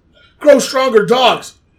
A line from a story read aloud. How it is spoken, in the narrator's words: He yelled at the humans